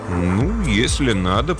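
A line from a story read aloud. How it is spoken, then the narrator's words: Mumbled. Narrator (Russian): промямлил Смэдли Фейвершем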